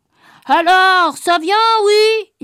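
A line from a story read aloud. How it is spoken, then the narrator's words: Shouting. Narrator (French): il criait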